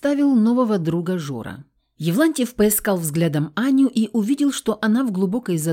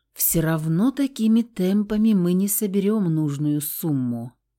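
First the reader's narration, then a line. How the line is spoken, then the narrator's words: Muttered to nobody. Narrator (Russian): пробормотала она в пустоту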